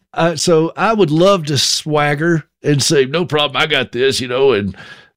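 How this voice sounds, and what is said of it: Southern American accent. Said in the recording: “the Southern accent gives it away”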